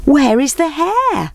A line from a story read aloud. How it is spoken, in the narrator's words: They called out